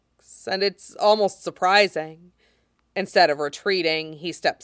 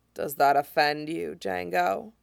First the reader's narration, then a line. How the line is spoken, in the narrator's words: he asks quietly